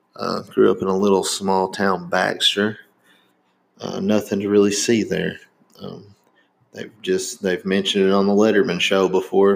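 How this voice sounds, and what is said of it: Strong Southern American accent. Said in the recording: “you definitely can't tell by my accent. I sound very Southern”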